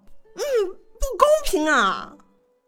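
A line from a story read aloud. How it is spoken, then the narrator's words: Hurried loud protest. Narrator (Chinese): 魏无羡 赶忙大嚷道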